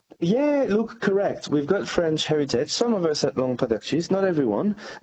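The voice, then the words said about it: French accent. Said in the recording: “these are French-style cheeses, as we can tell by your accent. You've got French origins”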